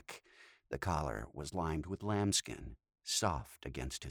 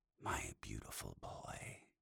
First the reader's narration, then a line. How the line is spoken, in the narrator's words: his Dom whispered